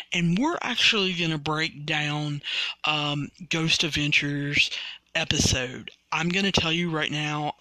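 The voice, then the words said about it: Slightly raspy voice. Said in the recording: “as you guys can hear, I'm getting a little raspy myself.”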